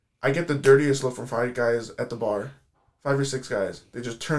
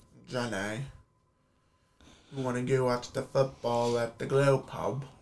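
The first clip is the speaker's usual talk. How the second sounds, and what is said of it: Put-on Southern US accent. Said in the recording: “I have a very, like, Forrest Gump Southern accent.”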